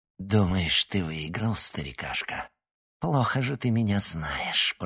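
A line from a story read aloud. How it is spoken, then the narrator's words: Witch's hiss. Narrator (Russian): прошипела ведьма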